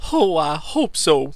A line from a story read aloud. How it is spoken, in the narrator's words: she almost sobbed